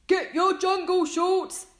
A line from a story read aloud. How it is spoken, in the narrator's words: shouted